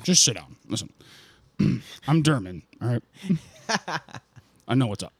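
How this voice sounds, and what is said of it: Imitates another person's voice. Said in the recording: “that was a substitution for a German accent... Being German is more of an energy... less than an accent”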